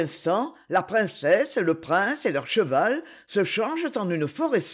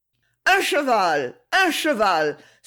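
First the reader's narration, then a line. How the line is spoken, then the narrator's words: Exclaimed. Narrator (French): s'écrie l'empereur souterrain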